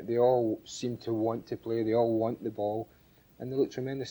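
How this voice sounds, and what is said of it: Scottish accent. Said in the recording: “with a Scots accent”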